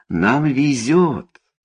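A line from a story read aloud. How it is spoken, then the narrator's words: Exclaiming. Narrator (Russian): воскликнул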